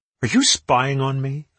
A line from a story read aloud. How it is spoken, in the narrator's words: I asked indignantly